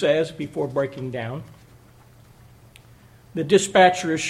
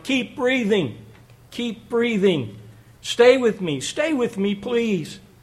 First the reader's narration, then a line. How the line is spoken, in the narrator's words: Ryan he pleads with his 47-year-old wife